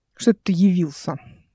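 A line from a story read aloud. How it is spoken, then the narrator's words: Gruff mutter. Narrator (Russian): буркнул он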